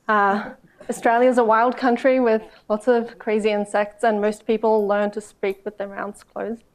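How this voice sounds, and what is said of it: Australian accent. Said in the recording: “a speech impediment. The clinical term for this is an Australian accent ... mumble”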